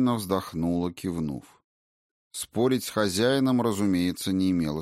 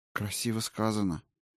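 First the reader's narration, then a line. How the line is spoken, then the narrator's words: Sigh. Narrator (Russian): вздохнула Валькирия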